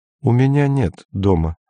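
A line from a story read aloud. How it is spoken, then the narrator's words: Calm. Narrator (Russian): сказал Пак спокойно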